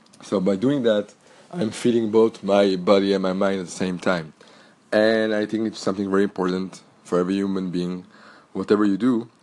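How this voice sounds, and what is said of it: French accent, slightly cracky voice. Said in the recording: “French is actually my mother tongue. If you haven't catch it yet from my accent ... my voice is a little bit cracky today because I have a cold”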